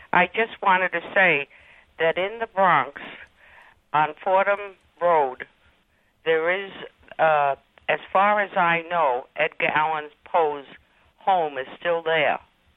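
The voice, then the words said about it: American East Coast accent. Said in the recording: “you can tell by my accent that I'm from the East Coast”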